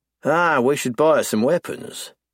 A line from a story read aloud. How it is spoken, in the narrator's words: I sigh wistfully